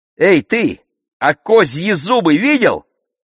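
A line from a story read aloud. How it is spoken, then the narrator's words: Shout. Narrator (Russian): Я крикнула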